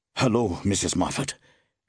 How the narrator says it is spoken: gasped Lindsay

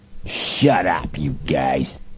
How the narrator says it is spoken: Malloy growled

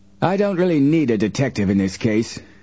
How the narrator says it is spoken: Hurd Applegate snapped

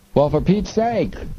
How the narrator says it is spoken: the three cried out

